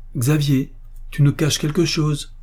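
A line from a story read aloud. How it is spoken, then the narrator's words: Sobbing old man. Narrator (French): Le vieil Alsacien sanglotait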